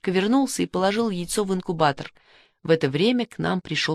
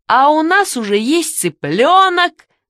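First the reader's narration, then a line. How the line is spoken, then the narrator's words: Shouting. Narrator (Russian): закричал Мишка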